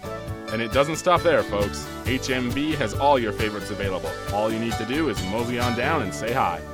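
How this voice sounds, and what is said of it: Smooth, sultry announcer voice. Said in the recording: “he had a sexy voice ... that pedophile-sounding voice ... Must be some sort of voice professional”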